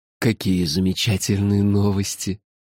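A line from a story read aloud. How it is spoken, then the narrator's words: Gentle, affectionate. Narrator (Russian): ласково сказал черноглазый человек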